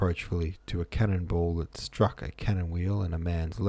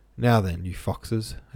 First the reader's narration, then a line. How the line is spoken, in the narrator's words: said, laughing